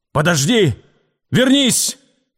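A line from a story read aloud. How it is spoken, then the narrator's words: Hoarse shout. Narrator (Russian): крикнул он хриплым голосом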